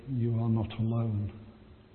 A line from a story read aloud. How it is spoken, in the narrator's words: God whispering in my ear